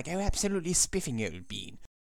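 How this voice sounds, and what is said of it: Exaggerated nasal posh British accent. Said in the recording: “A really posh person goes something like this, when I have to go nasal”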